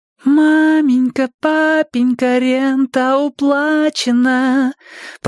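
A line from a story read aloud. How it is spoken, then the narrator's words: Melodious singsong. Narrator (Russian): пропела Нина мелодичным голоском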